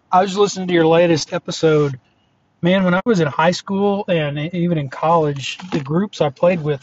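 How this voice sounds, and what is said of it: Hoarse, fading voice. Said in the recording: “I'm a little bit of allergies, losing my voice today. Hopefully you can hear me okay.”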